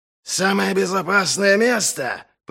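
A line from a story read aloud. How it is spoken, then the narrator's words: Roared. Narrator (Russian): проревел Доу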